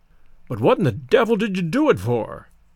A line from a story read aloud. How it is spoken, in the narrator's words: blurted my grandfather, excitedly